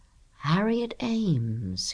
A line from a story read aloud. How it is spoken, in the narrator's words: he murmured